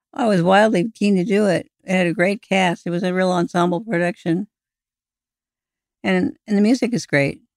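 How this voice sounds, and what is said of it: Voice giving out, strained. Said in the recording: “my voice is going out”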